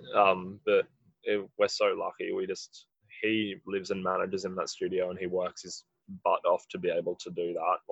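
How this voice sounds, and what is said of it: Husky, raspy voice. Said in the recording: “my voice is a bit husky ... I'm pretty raspy.”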